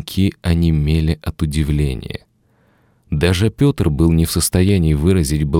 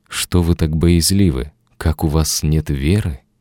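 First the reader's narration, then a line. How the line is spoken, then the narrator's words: Sad address. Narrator (Russian): Иисус печально обращается к своим ученикам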